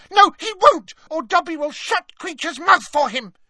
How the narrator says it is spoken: cried Dobby in a high-pitched voice

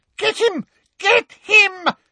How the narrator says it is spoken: screamed Umbridge

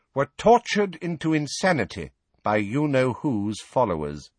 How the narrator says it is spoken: she said, turning haughtily

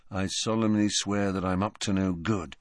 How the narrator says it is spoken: he murmured

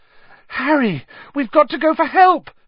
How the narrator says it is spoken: Hermione cried

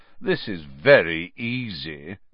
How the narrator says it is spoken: Malfoy drawled, loud enough for Harry to hear him

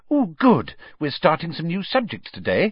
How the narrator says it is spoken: said happily

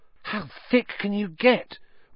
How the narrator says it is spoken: Ron whispered ecstatically

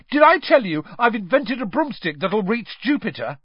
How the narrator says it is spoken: Ron was yelling

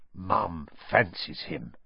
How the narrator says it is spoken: said Fred in a very audible whisper

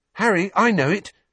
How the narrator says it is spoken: someone panted

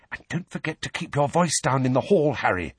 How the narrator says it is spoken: Hermione whispered

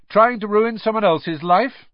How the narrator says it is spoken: said Harry loudly

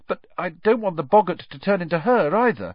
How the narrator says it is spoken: said Neville nervously

